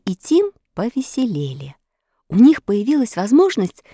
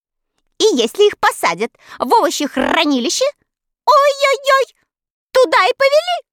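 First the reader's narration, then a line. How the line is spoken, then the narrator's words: Loud laughter. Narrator (Russian): Кагикар принялась хохотать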